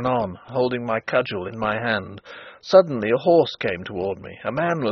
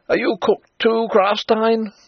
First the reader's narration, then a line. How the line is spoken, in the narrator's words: he cried